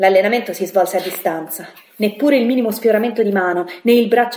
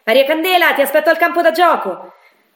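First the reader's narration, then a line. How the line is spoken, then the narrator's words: Shouting. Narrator (Italian): gridò senza guardarmi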